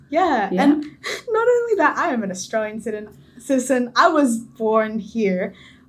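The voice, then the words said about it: Strong Australian accent. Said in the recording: “I have the most, you know, Australian accent”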